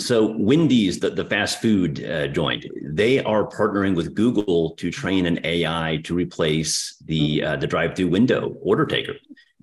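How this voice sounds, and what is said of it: Strong Texas accent. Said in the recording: “my horrendous Texas accent”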